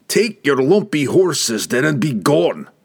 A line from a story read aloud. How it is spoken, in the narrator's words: Brunner roared